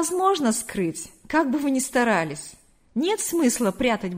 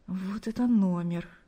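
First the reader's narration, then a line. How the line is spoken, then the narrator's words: Embarrassed whisper to himself. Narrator (Russian): Смущенно улыбаясь, прошептал он себе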